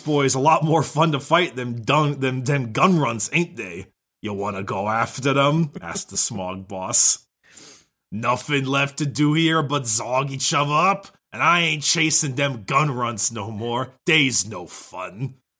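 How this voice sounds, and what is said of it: Put-on orc character accent. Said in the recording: “Look at you doing orc. ... accents, ... You're much better at it”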